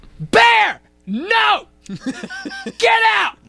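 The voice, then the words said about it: Shouting loudly. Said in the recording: “Why is he shouting? Why are you shouting?”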